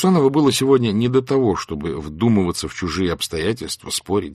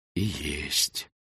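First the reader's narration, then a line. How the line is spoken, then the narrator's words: Very quiet. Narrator (Russian): очень тихо выговорил федерау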